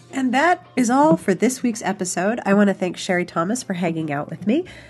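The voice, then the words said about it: Stuffy voice, like having a cold. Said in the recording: “I don't know if you can tell, but I'm sure that you can tell. I have a bit of a cold”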